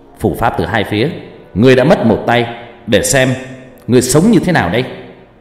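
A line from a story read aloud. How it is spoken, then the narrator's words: Young man shouting. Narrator (Vietnamese): Anh chàng bên kia trông cũng trẻ trung, hét lên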